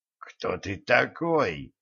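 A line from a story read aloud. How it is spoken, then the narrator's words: Hoarse question. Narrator (Russian): хрипло спросил светлый воин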